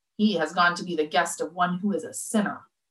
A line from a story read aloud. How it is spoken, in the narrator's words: All who saw it began to grumble and said